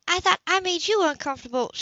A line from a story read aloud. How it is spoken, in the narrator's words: blurted out